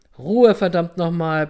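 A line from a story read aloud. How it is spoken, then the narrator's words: Bellowing. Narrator (German): brüllte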